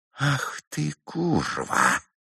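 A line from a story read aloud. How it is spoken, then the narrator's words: Menacing whisper. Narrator (Russian): страшным шепотом сказал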